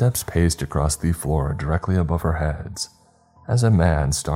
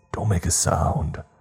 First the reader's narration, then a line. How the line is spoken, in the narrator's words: hissed